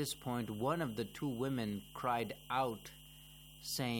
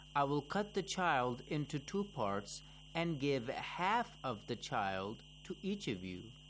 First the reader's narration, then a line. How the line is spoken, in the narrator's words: Imam Ali calmly replied